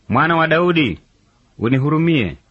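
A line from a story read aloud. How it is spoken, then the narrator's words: Shouting louder. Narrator (Swahili): akazidi kupaza sauti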